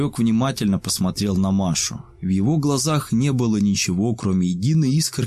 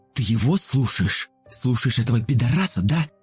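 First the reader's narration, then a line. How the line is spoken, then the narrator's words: Hissing through bloody nose. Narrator (Russian): Зашипела Маша, пуская пузыри кровавых соплей из разбитого носа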